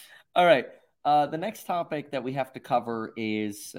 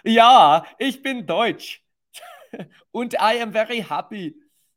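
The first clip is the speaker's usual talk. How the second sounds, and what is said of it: Put-on exaggerated German accent. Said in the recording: “My favorite is German ... No, that's not even very good ... make fun of the German accent”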